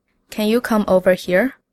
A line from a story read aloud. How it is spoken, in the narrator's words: I sigh